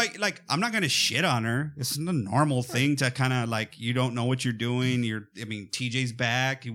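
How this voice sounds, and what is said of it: Usual voice. Nothing is said of it.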